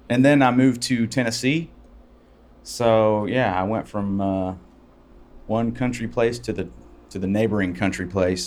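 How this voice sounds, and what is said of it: Slight Southern country twang. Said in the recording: “That's why you got that little twang... I sound like a redneck... I probably have a hybrid of both kind of accents”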